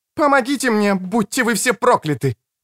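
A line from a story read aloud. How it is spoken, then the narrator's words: Shouted. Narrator (Russian): крикнула Креция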